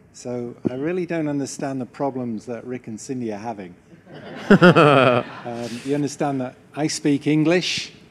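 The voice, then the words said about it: Northern Irish accent. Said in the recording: “my voice, my accent is not local to this area. It's actually nearer to Ballymena than America.”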